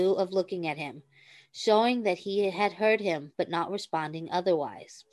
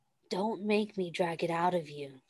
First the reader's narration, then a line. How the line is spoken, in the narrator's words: Stiles breathed softly, relieved